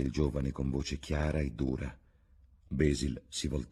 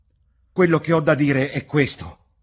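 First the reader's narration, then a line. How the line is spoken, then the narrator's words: Shouted. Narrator (Italian): gridò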